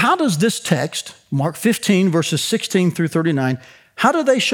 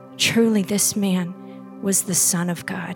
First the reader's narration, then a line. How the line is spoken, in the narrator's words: the centurion, who stood facing him, he said